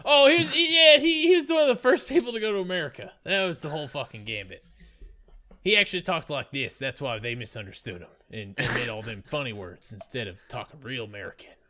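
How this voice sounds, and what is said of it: Put-on Southern American accent. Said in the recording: “No. That was Southern ... That sounded Australian to me.”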